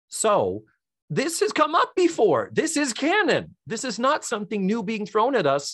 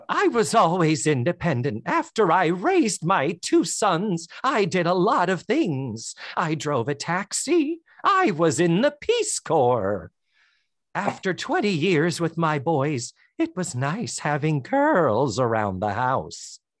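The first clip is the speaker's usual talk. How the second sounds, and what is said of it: Impression of Mrs. Garrett's voice. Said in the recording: “I'm going to have to do her voice”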